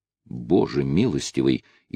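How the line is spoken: Frightened. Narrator (Russian): испуганно сказал судья

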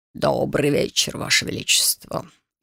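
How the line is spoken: Deep male voice. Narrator (Russian): глубоким голосом произнес вошедший

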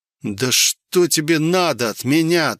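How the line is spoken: Pleading growl, fear and hatred. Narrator (Russian): то ли взмолился, то ли прорычал я сам себя, не помня от страха и ненависти ко всему вурдалачьему племени

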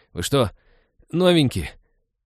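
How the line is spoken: Disparaging groan. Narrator (Russian): Уничижительно простонал тот

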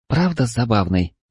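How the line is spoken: Whispered. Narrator (Russian): прошептала Лиана

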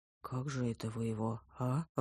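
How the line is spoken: Timid question. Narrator (Russian): робко поинтересовался олуп

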